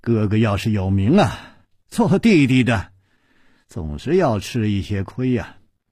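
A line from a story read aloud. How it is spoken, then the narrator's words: Sighing after a pause. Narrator (Chinese): 楚留香沉默了一会儿，才叹气了一声说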